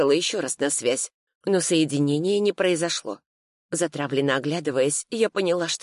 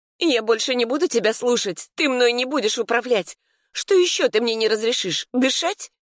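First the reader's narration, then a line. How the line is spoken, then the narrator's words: Near-hysterical shriek. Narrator (Russian): Я почти взвизгнула от накатывающей на меня истерики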